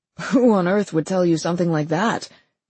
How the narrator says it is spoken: Charles Osaris let out a sound that was half bark, half laugh

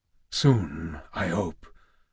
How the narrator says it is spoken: Kratos said softly

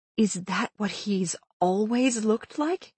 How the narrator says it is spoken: I asked under my breath

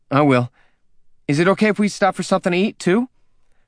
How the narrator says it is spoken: Her tone turned sharp again, like she was accusing him of something

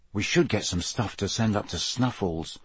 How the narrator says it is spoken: Harry muttered

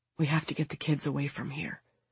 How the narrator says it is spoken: he whispers

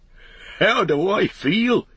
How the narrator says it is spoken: he cried

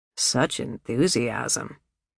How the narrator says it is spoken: Jack said dryly

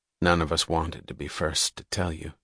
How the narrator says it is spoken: he said very quietly

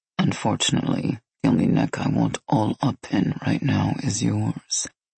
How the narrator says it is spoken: he added under his breath

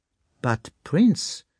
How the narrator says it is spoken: Dessalles began timidly

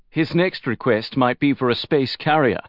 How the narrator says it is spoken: Heinz said with a chuckle

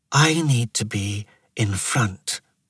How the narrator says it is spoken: she whispered at him

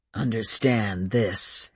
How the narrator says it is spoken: Adam said in a guttural voice

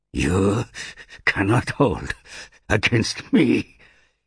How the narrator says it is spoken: hissed Nagusha through clenched teeth

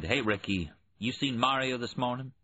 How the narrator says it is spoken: His tone was annoyed

